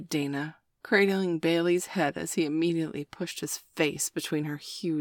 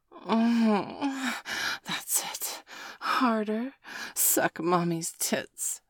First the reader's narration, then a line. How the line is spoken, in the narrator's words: Dana hissed